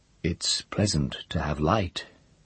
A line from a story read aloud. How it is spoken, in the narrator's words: he said, in the soft but deep voice which perturbed her